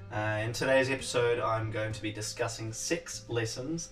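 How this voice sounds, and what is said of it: New Zealand accent. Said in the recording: “Sorry about my Kiwi accent there, saying six.”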